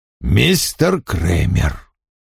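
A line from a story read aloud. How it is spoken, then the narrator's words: Cold. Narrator (Russian): холодно произнес он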